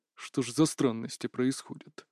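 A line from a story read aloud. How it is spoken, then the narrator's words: Muttered under breath. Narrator (Russian): пробормотал себе под нос старший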